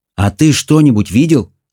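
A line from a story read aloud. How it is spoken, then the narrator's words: Plain. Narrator (Russian): спросила Мэлори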